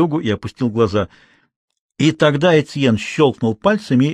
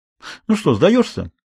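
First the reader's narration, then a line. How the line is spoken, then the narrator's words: Cheerful question. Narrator (Russian): весело спросил Этьен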